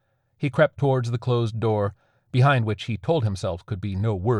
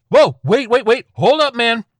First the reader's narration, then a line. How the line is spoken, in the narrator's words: yelled